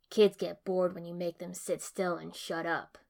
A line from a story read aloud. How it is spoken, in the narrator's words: Zabuza said, not quite growling